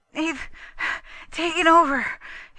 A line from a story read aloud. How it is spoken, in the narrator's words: he panted, another gobbling breath